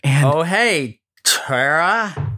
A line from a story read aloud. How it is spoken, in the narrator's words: Tony slurred